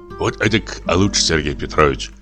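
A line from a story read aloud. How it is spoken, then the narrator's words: Mumbling. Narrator (Russian): забормотал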